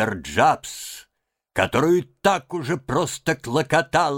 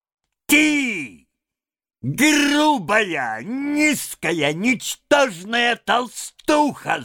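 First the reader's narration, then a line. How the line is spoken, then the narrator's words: Yelling. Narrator (Russian): завопил он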